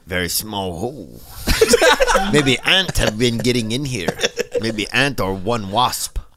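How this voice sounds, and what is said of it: Put-on Asian accent. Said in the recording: “Is that an Asian accent?”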